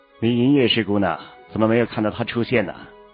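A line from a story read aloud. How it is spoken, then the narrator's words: Indifferent question. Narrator (Chinese): 韩立淡淡的问上了一句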